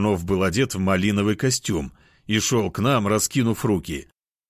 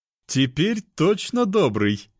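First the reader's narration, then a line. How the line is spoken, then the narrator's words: Laughing. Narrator (Russian): рассмеялся тот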